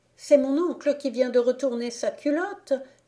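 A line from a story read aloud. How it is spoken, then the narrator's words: Exclaimed. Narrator (French): s'écria Églante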